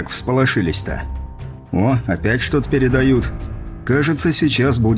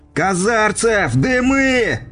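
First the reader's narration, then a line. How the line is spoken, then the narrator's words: Shouted. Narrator (Russian): выкрикнул я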